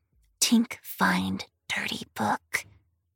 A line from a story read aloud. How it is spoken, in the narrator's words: the goblin whispered